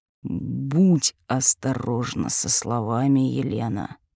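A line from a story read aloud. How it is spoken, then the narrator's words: Said through gritted teeth. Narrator (Russian): процедил Владислав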